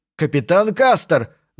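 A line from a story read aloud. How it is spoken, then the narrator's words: Reporter shouting. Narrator (Russian): закричал репортер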